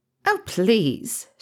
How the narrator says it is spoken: scoffed, though her cheeks flushed slightly

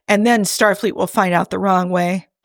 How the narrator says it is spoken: Jim sighed

